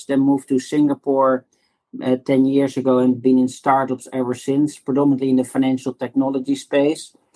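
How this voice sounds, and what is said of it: Dutch accent. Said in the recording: “as you can hear from my accent, I'm originally from the Netherlands”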